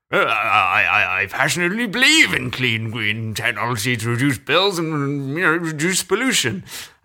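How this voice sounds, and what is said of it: Boris Johnson impression. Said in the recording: “shall I do it in a Boris accent?”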